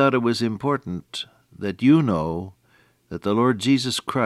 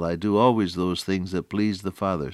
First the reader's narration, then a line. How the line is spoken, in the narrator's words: said he